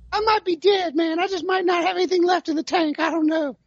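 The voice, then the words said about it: Poor Philip Rivers impression. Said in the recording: “That was my tally Philip Rivers impersonation, which was terrible.”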